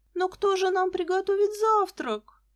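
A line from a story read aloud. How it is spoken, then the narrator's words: Moaning. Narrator (Russian): застонала Лиза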